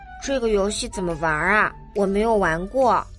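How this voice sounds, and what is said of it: Quiet, soft questioning voice. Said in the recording (Chinese): “小熊小声的问”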